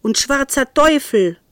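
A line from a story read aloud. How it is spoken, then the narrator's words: Farmer calling out. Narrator (German): rief der Bauer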